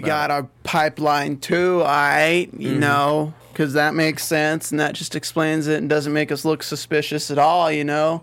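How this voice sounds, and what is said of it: Impression of Jax. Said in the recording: “What is this voice? Is this your Jax impression? ... It's my Jax.”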